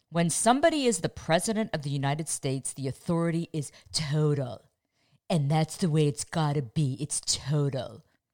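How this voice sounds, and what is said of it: Imitates another person's voice. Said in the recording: “my best Trump impression”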